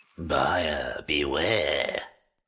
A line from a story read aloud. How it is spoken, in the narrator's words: a raspy yet confident voice said